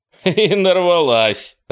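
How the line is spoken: Laughing. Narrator (Russian): рассмеялся Чаки

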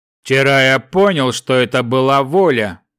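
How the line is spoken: Big man's booming voice. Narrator (Russian): прогремел голос здоровяка

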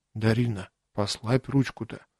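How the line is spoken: Quiet, into ear. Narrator (Russian): тихо сказал я ей на ухо

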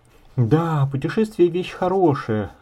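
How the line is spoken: Sigh. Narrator (Russian): вздохнул богослов

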